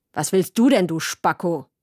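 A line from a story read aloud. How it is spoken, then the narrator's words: Sharp cutting voice. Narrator (German): hat er gefragt und seine Stimme hat so scharf geklungen wie eine Papierschere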